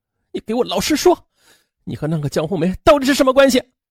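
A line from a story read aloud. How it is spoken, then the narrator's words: Angry demand. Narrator (Chinese): 张维尼愤怒的质问丈夫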